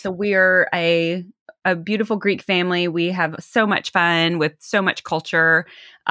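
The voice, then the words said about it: Southern American twang. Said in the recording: “I'm from the South originally, hence that twang.”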